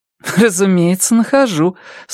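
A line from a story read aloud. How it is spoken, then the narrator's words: Laughing reply. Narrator (Russian): со смехом ответила Робин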